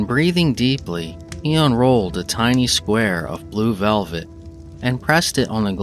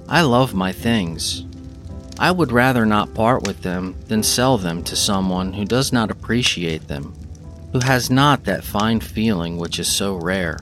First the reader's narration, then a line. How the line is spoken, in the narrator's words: he would explain in his low, respectful tones